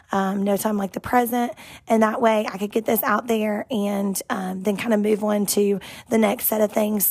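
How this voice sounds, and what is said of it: Sick, weakened voice. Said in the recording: “as you can tell by my voice, I have been sick ... waiting for my voice to fully come back”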